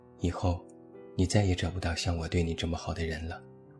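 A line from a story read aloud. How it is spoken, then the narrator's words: Flat, indifferent. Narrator (Chinese): 只淡淡说了一句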